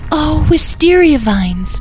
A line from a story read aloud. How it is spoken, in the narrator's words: gasped Edwin